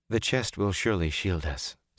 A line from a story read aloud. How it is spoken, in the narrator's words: Celine said in a tight voice